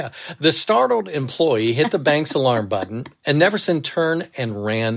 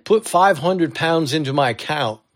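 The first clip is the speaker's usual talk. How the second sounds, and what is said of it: Dodgy put-on English accent. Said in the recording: “let me do a little English accent here ... I don't know if that was a good British account or not. People might say that you are Dick Van Dyke in Mary Poppins.”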